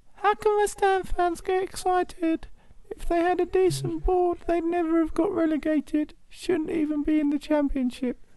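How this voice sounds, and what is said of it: Imitates another person's voice. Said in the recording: “This is my best impression of him ... That's a rubbish Adrian Durham”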